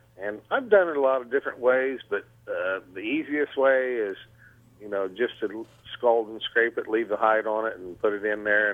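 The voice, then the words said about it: Ozark American Southern accent. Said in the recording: “your Ozark accent”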